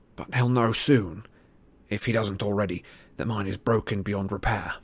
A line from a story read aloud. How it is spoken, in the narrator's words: said Harry quietly